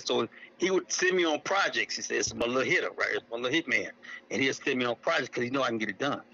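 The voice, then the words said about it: Country Oklahoma accent. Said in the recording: “I'm country. I'm a country boy from Oklahoma, as you can probably tell with my accent.”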